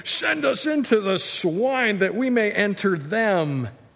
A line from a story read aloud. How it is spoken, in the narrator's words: So all the demons begged him, saying